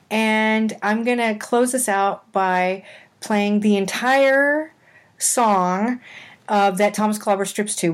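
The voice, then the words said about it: Sick, recovering voice. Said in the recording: “I'm still recovering, as you can probably hear from my voice.”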